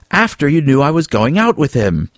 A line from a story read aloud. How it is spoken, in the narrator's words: Alan yelled